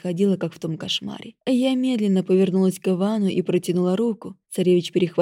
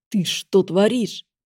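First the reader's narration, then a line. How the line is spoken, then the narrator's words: Hiss. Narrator (Russian): прошипел он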